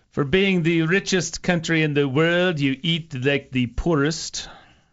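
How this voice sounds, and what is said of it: Bad put-on accent. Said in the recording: “That's a really bad accent.”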